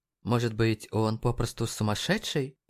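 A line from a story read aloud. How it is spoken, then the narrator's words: Muttered. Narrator (Russian): пробормотал МДжей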